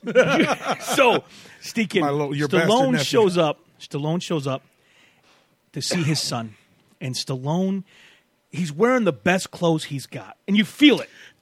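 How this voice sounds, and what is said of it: Hoarse, strained, fading voice. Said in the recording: “my voice is shot. You hear my voice dying? ... get you some lozenges”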